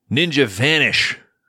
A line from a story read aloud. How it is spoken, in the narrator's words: Tatsu yells